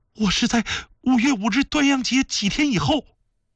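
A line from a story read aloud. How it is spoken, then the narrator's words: Hurried reply. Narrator (Chinese): 苏麻拉姑急忙回答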